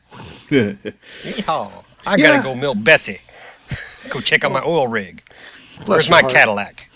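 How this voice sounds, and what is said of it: Exaggerated put-on Texan drawl. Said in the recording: “I'm the native Texan here, so you'd think I'd be talking like this.”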